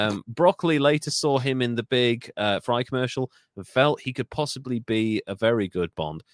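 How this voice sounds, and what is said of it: Usual voice. Nothing is said of it.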